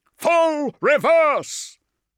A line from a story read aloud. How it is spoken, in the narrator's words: roared